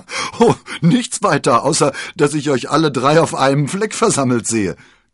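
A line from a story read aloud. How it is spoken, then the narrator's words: Giggling. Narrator (German): kicherte D'Artagnan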